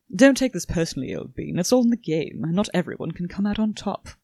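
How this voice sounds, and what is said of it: Bad put-on British accent. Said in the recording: “if he's British ... really awful, just terrible goddamn accent”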